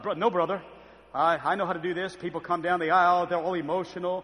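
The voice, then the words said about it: Exaggerated preacher voice. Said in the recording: “he put that preacher voice on”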